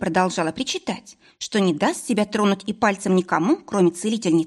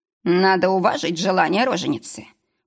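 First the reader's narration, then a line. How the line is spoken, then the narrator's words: Booming bass agreement. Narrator (Russian): поддержал Брайтон гулким басом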